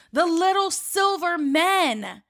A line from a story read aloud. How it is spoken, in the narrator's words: gasping out of breath, they yell